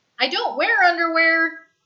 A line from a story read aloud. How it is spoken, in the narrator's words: Stiles shouts after him